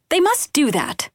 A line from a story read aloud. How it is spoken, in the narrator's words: she added brightly